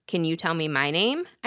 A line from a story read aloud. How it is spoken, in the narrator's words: I asked him